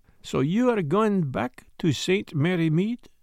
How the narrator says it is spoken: he said slowly

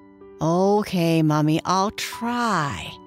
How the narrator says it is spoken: Jackie sighed

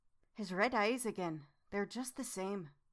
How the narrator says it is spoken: suddenly Lucy muttered as if to herself

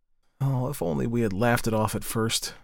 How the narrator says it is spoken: she groaned to herself

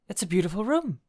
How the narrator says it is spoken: I exclaimed

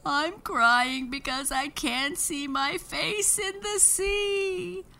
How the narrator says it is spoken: sobbed Moon

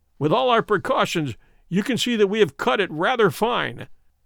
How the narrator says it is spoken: said Holmes, laughing

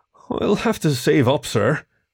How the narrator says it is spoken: Kieran mumbled, with poorly disguised shame

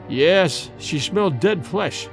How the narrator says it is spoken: replied Dorda gloomily

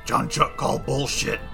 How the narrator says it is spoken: Mist is just going to growl back

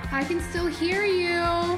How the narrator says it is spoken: my mother would scream out behind closed doors from downstairs and across the house

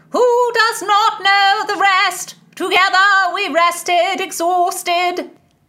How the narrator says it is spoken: Sir Francis bellowed

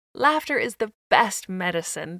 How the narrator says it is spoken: would say, as they chuckled and giggled

